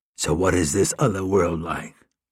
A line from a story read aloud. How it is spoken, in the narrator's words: in a low voice, asked